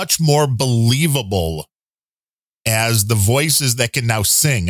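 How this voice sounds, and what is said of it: Usual voice. Nothing is said of it.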